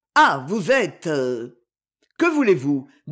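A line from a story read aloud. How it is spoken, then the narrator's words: Suddenly icy tone. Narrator (French): dit-il d'un ton soudain glacé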